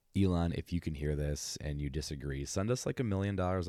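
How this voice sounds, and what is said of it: Usual voice. Nothing is said of it.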